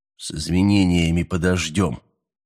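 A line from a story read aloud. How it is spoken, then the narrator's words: Rude interruption. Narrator (Russian): грубо оборвал его Миллер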